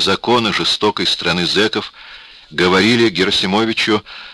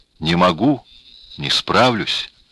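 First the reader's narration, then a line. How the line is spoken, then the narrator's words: Very quiet, weak reply. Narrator (Russian): очень тихо, очень слабо ответил Герасимович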